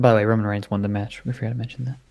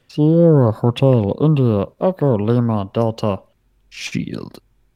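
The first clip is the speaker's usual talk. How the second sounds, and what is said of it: Impression of The Shield's entrance. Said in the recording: “what a great impression right there”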